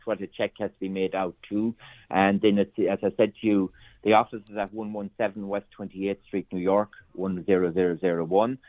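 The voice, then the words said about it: Very strong Irish accent. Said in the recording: “I'm aware of a very strong Irish accent, so I hope they can understand me.”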